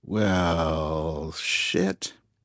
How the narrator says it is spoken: breathed Smith

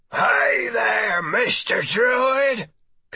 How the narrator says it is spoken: called in his gravelly rasp

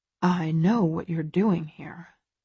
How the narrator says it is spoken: he murmurs, and his voice has acquired a warm, seductive edge

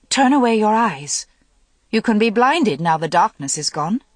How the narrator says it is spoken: said sharply

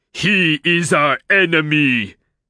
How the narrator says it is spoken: the dwarf roared

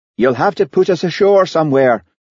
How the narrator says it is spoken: shouted Hamish above the noise of the fishing boat's engine

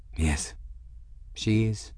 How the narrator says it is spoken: he said quietly

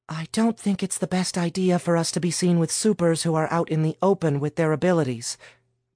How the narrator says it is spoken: Mary whispered

